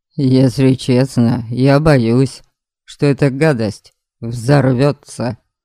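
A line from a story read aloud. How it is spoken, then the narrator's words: Grumbling. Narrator (Russian): пробурчал Дориан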